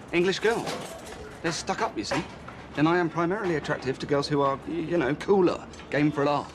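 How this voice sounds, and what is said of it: British accent. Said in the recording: “my cute British accent”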